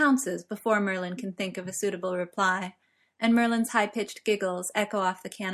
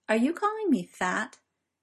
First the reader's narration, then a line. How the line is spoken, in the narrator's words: in a deceptively casual tone